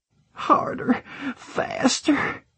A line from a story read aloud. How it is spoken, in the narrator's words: she moaned